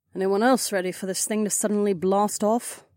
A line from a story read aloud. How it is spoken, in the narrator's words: Kat muttered